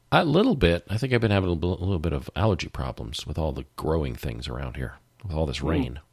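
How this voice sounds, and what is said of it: Congested, stuffy-nosed voice. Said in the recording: “you sound a little congested.”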